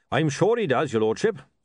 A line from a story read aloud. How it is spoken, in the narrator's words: said Goodmountain cheerfully